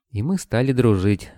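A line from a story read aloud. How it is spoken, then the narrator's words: Sighing. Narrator (Russian): Вера вздохнула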